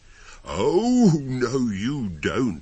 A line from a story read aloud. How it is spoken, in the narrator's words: a voice thundered from just behind me